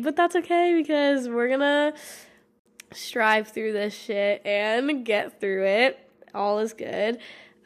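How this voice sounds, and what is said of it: Raspy, congested voice. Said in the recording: “now I got a stuffy nose ... my voice sounds raspy or wild or weird”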